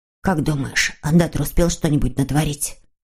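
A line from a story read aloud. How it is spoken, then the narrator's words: Whisper. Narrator (Russian): шепнул Муми-тролль Снус-Мумрику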